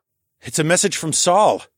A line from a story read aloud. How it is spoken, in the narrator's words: I exclaimed